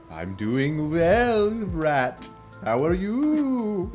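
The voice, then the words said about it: Dracula-style vampire character voice. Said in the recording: “I don't know why I'm doing this like Dracula voice.”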